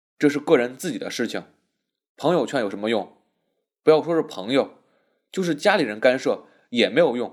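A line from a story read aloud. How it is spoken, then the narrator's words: Cold. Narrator (Chinese): 师君冷冷的道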